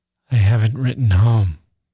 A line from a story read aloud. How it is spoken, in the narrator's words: Gusev sighed